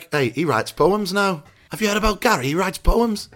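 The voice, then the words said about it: Put-on generic Northern English accent. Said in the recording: “is that a Yorkshire voice? ... kind of generic Wash Northern ... It's a bit Scouse, that.”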